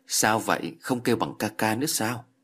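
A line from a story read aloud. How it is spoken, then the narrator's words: Smiling. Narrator (Vietnamese): Thường An Tại mỉm cười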